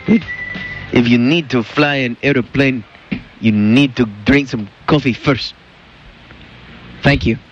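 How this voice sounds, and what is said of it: Wacky foreign accent, like Cheech and Chong. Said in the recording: “talk like this in Wings ... What's this, Cheech and Chong or something? ... what the hell is that? ... He had some wacky accent on Wings. Like he was from Albania ... you sounded just like”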